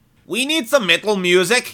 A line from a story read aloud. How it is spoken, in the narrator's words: he shrieked in a thick accent from Sweden